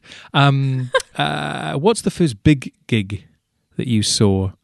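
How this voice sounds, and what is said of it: Terrible put-on accent. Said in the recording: “he says in a terrible accent”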